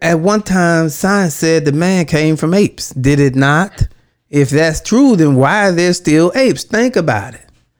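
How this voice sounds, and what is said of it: Impression of a politician's voice. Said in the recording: “Let me do his voice.”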